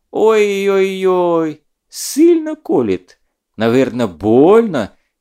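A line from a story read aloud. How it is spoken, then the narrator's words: Unctuous sympathy. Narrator (Russian): елейным голосом посочувствовал Щирый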